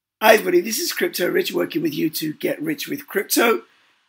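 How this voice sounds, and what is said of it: Hoarse, strained voice. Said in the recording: “I'm really sorry about my voice. I lost my voice over the weekend.”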